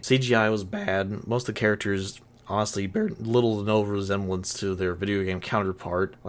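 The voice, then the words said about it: Tired, exhausted-sounding voice. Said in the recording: “Sorry if I sound tired through all this. ... I'm exhausted.”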